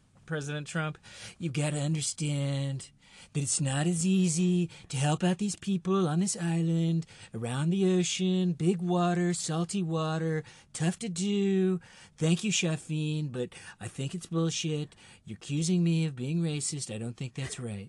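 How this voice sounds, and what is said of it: Spot-on political impersonation. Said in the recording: “Spot on impersonation.”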